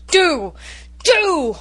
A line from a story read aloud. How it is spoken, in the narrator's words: roared Norman